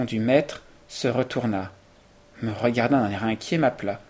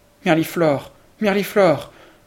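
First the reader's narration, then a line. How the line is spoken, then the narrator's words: Pitiful cry. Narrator (French): s'écrier d'un ton piteux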